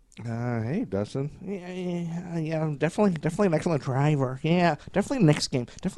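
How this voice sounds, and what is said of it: Imitates another person's voice. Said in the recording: “that's my impression of Dustin Hoffman. No, he's playing himself in Rain Man.”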